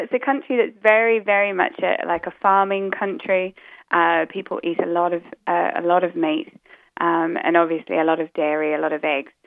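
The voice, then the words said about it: Muddled New Zealand accent. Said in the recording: “my accent's a bit muddled up because originally I come from New Zealand ... I heard the New Zealand in there”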